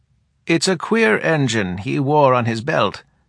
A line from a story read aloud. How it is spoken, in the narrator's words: said Coromena